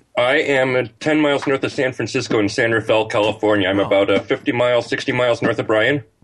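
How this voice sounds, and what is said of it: Mixed accent, sounds somewhat English. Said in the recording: “I thought your accent, I thought you were like overseas, like in England or something. ... My accent is very screwed up.”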